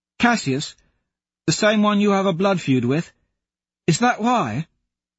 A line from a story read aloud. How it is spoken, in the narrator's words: asks eagerly